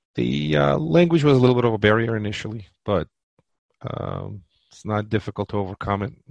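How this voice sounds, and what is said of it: Slight Eastern European accent. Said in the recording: “as you could hear, a little bit of accent still left over. Having immigrated at 18, I didn't get rid of the accent”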